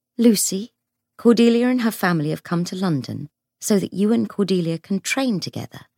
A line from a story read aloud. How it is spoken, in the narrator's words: said Tessa in her gentle voice